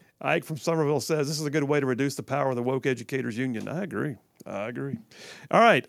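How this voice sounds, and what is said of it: Usual voice. Nothing is said of it.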